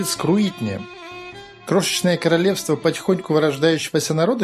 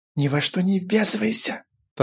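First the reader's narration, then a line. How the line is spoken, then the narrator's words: Hurried whisper. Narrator (Russian): торопливо ему шепнул Файтви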